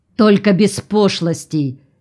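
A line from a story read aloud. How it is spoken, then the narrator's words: Angry retort. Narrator (Russian): сердито отдернула Мирнова Лозатина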